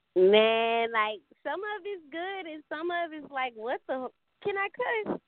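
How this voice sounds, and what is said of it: Mississippi Southern accent. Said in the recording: “I can hear it in your accent... you're from Mississippi”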